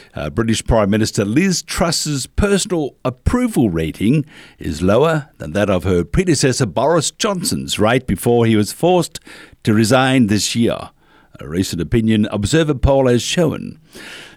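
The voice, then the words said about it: Put-on posh English accent. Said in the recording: “That's my English accent. I could have been one of the royals, you know.”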